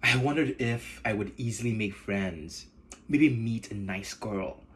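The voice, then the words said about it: Nigerian English accent. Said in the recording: “my Nigerian accent”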